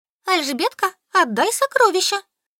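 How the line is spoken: Choking, squealing girl. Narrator (Russian): захлёбываясь, пищала Солька

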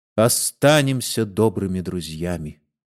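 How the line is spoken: Humble, timid, resigned tone. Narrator (Russian): смиренным, робким, обреченным тоном произнес

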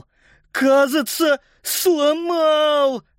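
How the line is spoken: Groaning in pain. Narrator (Russian): застонал Паскаль, держась за палец ноги

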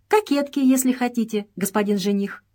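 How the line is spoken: Laughing. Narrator (Russian): смеясь в тон Джорджу, ответила Мария

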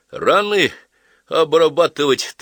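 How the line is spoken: Solemn request. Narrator (Russian): торжественным голосом попросил Чагин

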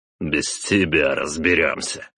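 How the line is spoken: Snorted. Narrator (Russian): хмыкнул отец

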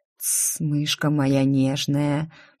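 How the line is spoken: Muffled murmur. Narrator (Russian): пробормотал он мне в ложбинку

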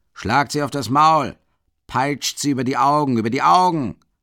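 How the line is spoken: Shouting. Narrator (German): schreit Mikolka

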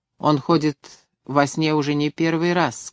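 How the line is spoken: Plain. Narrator (Russian): сказала она

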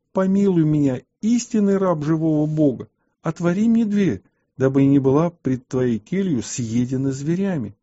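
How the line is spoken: Loud shout. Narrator (Russian): она громко закричала святому

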